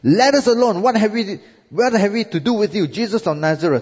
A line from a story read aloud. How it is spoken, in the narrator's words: A man shouts at Jesus